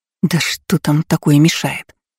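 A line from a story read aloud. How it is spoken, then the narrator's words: Muttering. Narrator (Russian): пробормотала Лола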